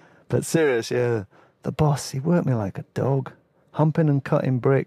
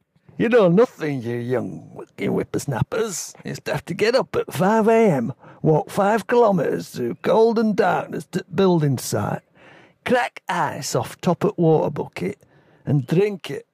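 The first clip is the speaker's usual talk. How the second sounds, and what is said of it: Put-on Yorkshire accent. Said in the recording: “I should say that in a Yorkshire accent.”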